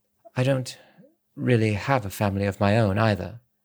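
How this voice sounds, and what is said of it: Low, quiet voice. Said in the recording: “in a low voice.”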